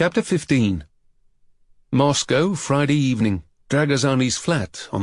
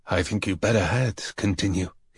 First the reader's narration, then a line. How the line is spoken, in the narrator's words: whispered